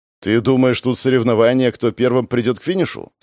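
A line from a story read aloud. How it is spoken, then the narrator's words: Plain. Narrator (Russian): спросил Гоша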